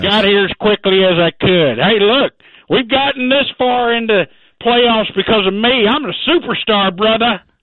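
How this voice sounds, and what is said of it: Put-on Texas accent. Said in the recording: “We're still having a problem getting past your Texas accent. It's just very unexpected.”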